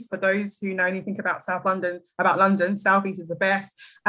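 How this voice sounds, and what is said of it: British South London accent. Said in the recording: “my accent, I'm British. I'm from London, South East.”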